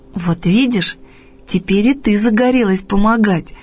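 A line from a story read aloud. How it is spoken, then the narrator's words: Laughing. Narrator (Russian): засмеялась Таня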